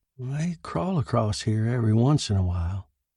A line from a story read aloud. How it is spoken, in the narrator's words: the farmer said quietly